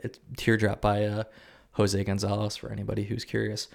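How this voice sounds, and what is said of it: Smooth radio announcer voice. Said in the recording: “That was a real good radio voice right there. ... smooth talk”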